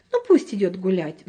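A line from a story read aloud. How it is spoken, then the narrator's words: Mother sighing. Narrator (Russian): вздохнула мама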